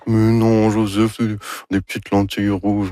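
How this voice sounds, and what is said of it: Imitates another person's voice. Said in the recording (French): “Ça, c'est mon imitation de Anne Dorval... C'est très réussi”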